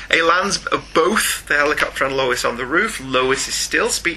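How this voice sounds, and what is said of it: Usual voice. Nothing is said of it.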